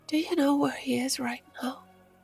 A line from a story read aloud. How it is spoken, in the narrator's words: whispered in a hushed tone